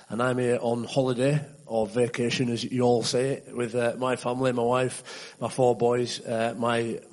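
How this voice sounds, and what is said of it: West Yorkshire English accent. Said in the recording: “you can probably tell from my accent that I'm not from around here. I'm from Leeds, England, in West Yorkshire.”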